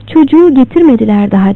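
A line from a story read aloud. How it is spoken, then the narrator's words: Plain. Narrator (Turkish): dedi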